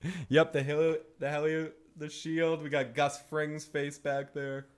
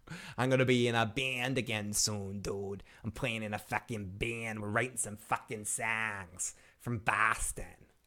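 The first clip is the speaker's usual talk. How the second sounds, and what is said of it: Put-on Boston accent. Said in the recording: “That's how my stepfather talks. That's the Boston accent. ... I'll put it on sometimes.”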